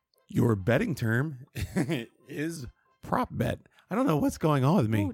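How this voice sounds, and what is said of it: Hoarse, failing voice. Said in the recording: “I'm losing my voice for some reason. ... I sound terrible. ... You sound, yeah. ... I keep coughing off mic.”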